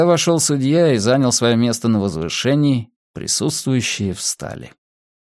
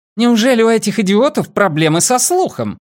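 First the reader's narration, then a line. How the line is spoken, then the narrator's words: Furious yelling woman. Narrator (Russian): заорала она, яростно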